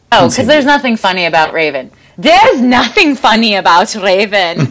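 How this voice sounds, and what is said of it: Imitates the Cabaret emcee's voice. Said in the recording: “That's my MC from Cabaret ... That was my impression.”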